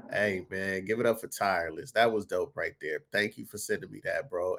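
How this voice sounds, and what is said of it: Congested, sick-sounding voice. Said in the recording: “Pardon my voice. I'm a little bit under the weather, man. Sinus infection kicking my ass”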